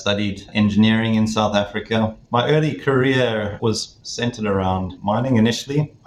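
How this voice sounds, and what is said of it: South African accent. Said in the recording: “from my accent, you might understand that I originate from South Africa”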